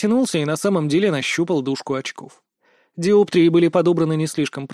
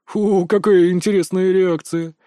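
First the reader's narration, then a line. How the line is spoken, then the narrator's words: Stranger's amused snort. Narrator (Russian): хмыкнул неизвестный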